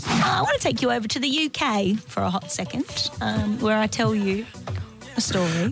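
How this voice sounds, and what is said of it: Unconvincing put-on British accent. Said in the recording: “That accent was most definitely not from the UK. ... Yeah, it was from like the south.”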